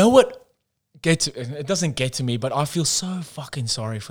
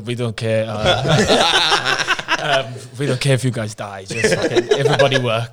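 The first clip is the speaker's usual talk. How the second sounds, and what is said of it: Mock Swedish accent. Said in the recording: “I'm not going to put on a Swedish accent... Do the Swedish one.”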